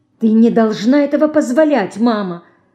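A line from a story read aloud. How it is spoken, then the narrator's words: Indignant whisper. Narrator (Russian): Возмущенно шепчет она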